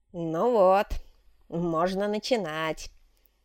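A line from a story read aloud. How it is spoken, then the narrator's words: Satisfied snort. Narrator (Russian): довольно хмыкнул Мазукта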